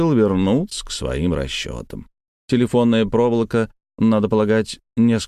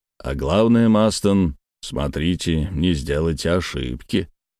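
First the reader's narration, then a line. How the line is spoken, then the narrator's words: Smiling joking tone. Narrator (Russian): улыбаясь шутливым тоном, прибавил Барбикен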